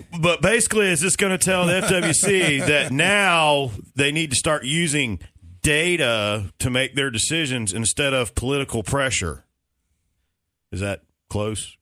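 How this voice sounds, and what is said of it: Imitation of Braden Gunn's voice. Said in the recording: “your Braden Gunn impersonation. Now I'm going to do mine ... The voice was a little off.”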